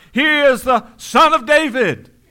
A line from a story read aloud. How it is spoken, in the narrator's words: they cried out